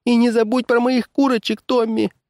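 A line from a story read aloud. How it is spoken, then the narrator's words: Sobbing. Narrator (Russian): прорыдала миссис Джонс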